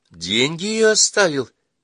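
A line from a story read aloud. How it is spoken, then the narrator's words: Feigned joyful question. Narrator (Russian): Будто бы радостно переспросила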